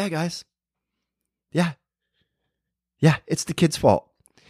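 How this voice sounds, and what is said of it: Usual voice. Nothing is said of it.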